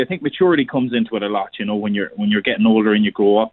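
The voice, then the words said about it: Pleasant, alluring regional accent. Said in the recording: “he has got a lovely voice as well ... I like that accent ... Very, very alluring voice ... Nice accent”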